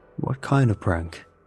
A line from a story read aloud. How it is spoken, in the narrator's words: Ahmed asks